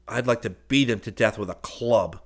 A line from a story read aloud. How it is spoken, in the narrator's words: Seaton said savagely